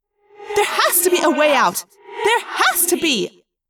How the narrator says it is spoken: Rachel yelled

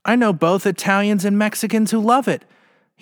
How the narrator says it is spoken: he sobbed between bites

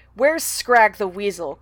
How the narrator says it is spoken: Clooney growled

